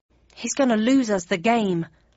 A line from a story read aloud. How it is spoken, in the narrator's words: muttered Jam in my ear